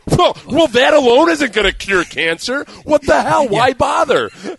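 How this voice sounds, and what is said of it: Angry indignant fan voice. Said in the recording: “impersonation of indignant fan is very underrated ... the voice that you make when you do guy who's angry that everything's not cured”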